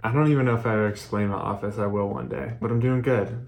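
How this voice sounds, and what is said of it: Thick, slightly congested voice. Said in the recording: “my voice is a little nogged up. I might feel like my throat is thick”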